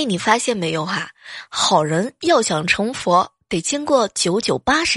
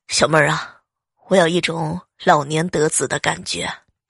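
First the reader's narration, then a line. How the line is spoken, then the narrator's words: Long sigh. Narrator (Chinese): 她长叹一声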